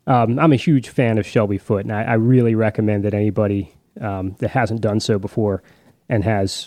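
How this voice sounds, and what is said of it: Usual voice. Nothing is said of it.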